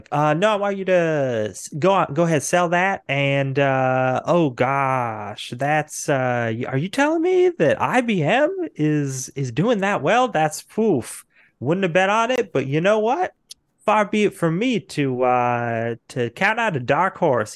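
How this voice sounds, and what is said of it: Put-on Texan accent. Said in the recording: “in a Texan accent, the guy in the huge hat”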